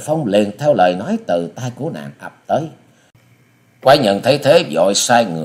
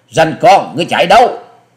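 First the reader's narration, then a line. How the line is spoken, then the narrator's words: Young woman shouting. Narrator (Vietnamese): thiếu nữ áo xanh đã quát to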